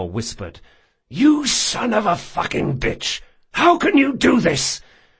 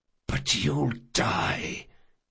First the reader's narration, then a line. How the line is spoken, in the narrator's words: whispered Jean